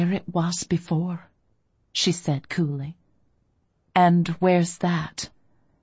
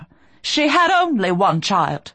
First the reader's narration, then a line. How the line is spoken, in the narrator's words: Rowena snapped